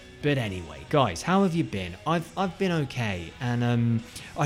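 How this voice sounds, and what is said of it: Usual voice. Nothing is said of it.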